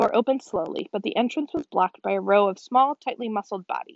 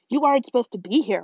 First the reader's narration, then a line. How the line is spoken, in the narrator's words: one from the back said urgently